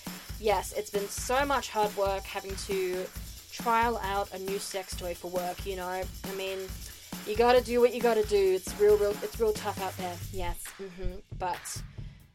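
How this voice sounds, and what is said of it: Sarcastic delivery. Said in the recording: “that's me being sarcastic. I'm just terrible at sarcasm over the recorder.”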